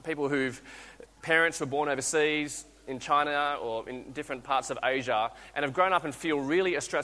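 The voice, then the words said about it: Australian accent. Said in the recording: “you listen to my accent, I sound Aussie”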